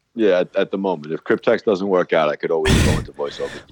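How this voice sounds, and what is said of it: Strong Long Island New York accent. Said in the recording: “Long Island, New York. ... wouldn't have known from the accent.”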